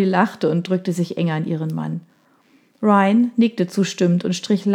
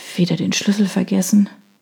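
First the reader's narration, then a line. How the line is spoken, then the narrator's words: Muttered with a sigh. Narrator (German): murmelte sie … seufzend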